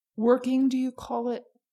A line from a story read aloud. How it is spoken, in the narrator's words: snapped